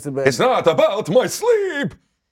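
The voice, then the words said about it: Dracula-style vampire accent. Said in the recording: “That was a vampire. That was Dracula.”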